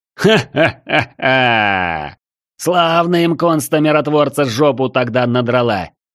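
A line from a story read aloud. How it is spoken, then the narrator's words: Bursting into laughter. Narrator (Russian): разразился хохотом свой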